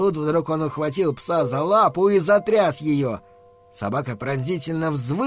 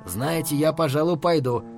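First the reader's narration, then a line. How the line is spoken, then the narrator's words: Quiet. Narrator (Russian): тихо сказал он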